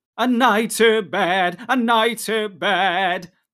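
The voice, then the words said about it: High-pitched sung line. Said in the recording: “in a high voice”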